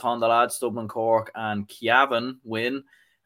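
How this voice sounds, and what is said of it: Put-on accent. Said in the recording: “Hopefully that was a good enough accent there.”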